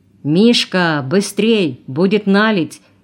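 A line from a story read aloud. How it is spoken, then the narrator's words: Shout choking into coughing. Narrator (Russian): крикнул Белоглазов и сразу же захлебнулся в кашле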